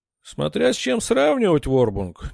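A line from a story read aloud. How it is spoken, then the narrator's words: Displeased grumble. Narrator (Russian): недовольно проворчал Маронг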